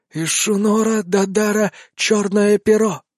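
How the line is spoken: Blurted snake-like harpy voice. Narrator (Russian): выпалила гарпия змеиным голосом

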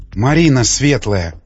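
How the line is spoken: Frightened whisper. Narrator (Russian): прошептала свинарка в страхе

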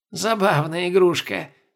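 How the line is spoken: Amused female snort. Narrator (Russian): хмыкнула наложница

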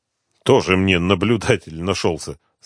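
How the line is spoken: Mocking. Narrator (Russian): сказал насмешливо

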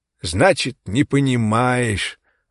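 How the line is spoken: Sighing. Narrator (Russian): вздохнул

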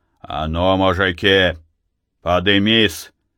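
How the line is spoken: Stern shout. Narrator (Russian): Матвей крикнул строго

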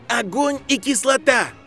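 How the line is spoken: Shouted. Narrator (Russian): крикнул Гарри

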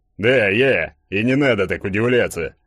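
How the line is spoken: Slightly offended grumble. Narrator (Russian): Слегка обиженно пробурчал Игорек

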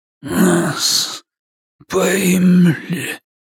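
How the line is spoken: Hoarse rasp. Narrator (Russian): хрипит он

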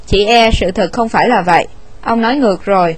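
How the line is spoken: Cold reply. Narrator (Vietnamese): Winston lạnh lùng đáp

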